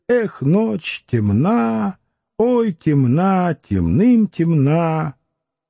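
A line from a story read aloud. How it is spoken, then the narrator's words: Soft humming outside window. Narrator (Russian): За окном мурлыкали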